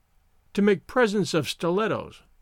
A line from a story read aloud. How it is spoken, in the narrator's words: she murmured